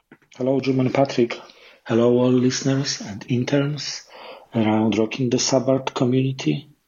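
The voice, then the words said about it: Polish-accented English. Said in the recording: “I'm calling from Poland ... I apologize for my accent.”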